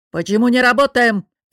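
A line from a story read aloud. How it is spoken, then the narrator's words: Barking boss. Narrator (Russian): рявкнул босс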